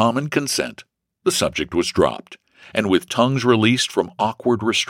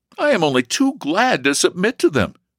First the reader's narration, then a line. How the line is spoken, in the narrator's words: he eagerly replied